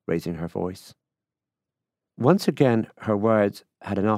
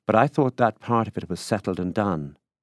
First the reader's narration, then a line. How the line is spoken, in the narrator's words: she said impatiently